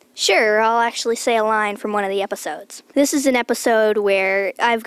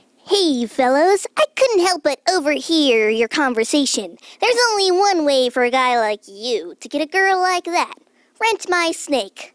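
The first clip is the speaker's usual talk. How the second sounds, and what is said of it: Funny character voice. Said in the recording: “talks on a funny voice”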